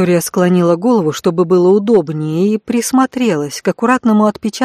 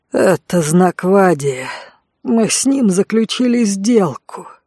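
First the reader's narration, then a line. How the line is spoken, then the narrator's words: Mournful hoarse, holding back howl. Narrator (Russian): тоскливо просипел Конт, едва сдерживаясь, чтобы не завыть в голос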